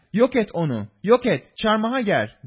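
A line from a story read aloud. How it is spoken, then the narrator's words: Crowd shouting. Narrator (Turkish): diye bağırıştılar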